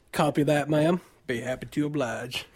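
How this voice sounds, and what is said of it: Imitated southern accent. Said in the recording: “Lance Hunter's incredible southern accent.”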